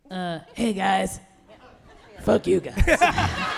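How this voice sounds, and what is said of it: Beetlejuice character voice. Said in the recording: “your best Beetlejuice voice ... do the voice”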